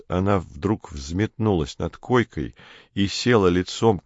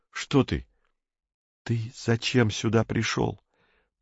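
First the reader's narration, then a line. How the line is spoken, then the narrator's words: Near whisper. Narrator (Russian): продолжала она почти шепотом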